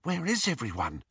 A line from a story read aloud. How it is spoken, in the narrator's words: whispered Hermione